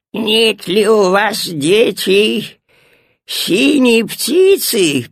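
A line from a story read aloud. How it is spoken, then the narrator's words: Old woman, raspy. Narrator (Russian): прохрипела старушонка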